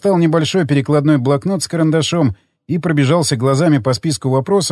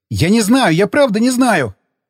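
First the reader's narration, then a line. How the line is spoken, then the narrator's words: Panicked yelling. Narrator (Russian): заорал, увидев, как я поднял с пола моток троса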